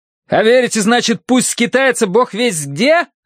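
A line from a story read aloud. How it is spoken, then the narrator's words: Yell. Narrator (Russian): заорал я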